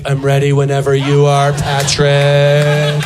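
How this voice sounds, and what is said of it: Playful character voice, not radio voice. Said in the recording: “That's obviously not my radio voice, but that is my inner gay kid voice”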